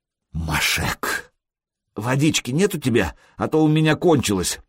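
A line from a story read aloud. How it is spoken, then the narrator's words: Hoarse wheeze. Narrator (Russian): просипел друг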